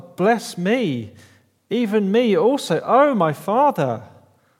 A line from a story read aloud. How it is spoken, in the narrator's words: he cried out with an exceedingly great and bitter cry and said to his father